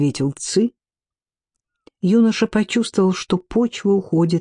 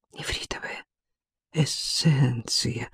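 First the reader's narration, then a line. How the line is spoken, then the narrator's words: Whisper. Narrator (Russian): прошептал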